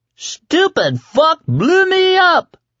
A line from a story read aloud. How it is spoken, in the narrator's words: Poke screamed